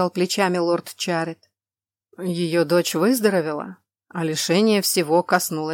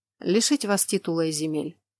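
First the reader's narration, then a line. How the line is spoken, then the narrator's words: Calm reply. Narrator (Russian): спокойно отозвался Устин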